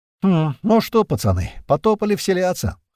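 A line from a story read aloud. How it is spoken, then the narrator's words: Snort. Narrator (Russian): хмыкнул Апрель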